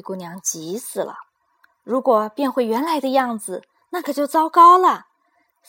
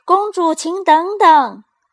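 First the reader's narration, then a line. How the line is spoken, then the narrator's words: Loud. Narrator (Chinese): 王子 大声的说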